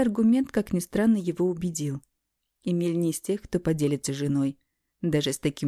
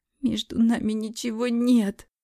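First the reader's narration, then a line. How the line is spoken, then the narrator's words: Whimpering. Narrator (Russian): захныкала я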